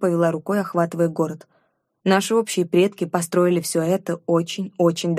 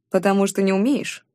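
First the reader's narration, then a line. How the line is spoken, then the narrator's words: Snorting. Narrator (Russian): хмыкнул Чингар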